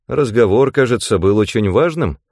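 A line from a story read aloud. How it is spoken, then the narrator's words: Plain question. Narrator (Russian): спросил Рэндом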